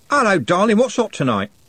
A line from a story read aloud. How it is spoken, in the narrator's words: said, cheerfully